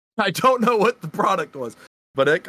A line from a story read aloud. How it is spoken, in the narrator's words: I cried